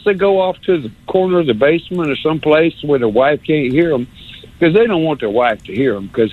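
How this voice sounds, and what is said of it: Usual voice. Nothing is said of it.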